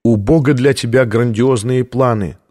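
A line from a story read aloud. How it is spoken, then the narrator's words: Plain. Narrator (Russian): сказала тогда она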